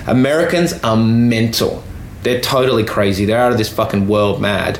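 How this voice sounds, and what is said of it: Flat Australian accent. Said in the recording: “if I'm properly Australian, I've got a flat accent, but they still know I'm an Australian”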